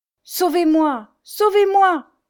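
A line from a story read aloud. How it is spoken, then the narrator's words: Writhing woman pleading. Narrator (French): suppliait la misérable en se tordant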